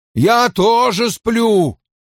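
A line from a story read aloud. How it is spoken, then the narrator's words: Near shout. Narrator (Russian): почти выкрикнул голый мужчина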